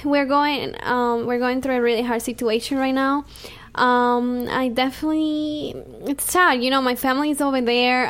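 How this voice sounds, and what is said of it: Venezuelan Spanish accent. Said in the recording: “You all know my accent. I'm from Venezuela, so I have it really.”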